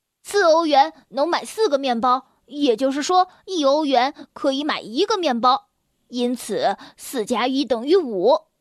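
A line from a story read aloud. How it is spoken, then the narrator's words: Loud announcement. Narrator (Chinese): 我大声的宣布道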